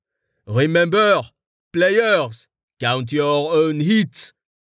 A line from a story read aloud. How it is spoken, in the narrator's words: Val shouted